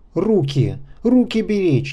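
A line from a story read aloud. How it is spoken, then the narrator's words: Indistinct shout. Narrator (Russian): неразборчиво крикнул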